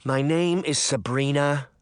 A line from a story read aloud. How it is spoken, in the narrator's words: Sabrina sighed